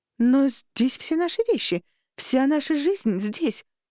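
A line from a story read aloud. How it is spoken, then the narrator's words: Babbling sister. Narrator (Russian): пролепетала сестра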